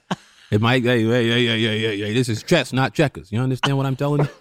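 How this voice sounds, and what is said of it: Imitates another person's voice. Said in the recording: “you're getting dangerously close to your Denzel impression ... It started early with your okay”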